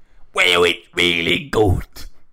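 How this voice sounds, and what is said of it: Imitates another person's voice. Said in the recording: “my impression of him as the penguin telling us about the script”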